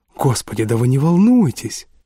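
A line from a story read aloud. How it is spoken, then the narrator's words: Exclamation. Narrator (Russian): воскликнул господин Ферраго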